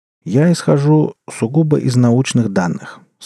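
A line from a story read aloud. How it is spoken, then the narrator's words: Calm. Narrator (Russian): спокойно сказал Симаргл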